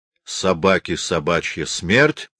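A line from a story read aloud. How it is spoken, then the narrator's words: Angry. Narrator (Russian): злобно проговорил казак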